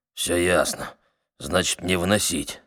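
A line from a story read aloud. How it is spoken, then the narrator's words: Grumbling. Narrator (Russian): Проворчал черный Бада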